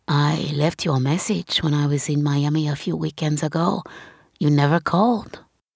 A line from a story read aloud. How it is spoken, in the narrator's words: he whispers